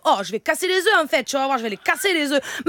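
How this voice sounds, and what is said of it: Put-on southern French accent. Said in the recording (French): “Allez, maintenant l'accent du sud.”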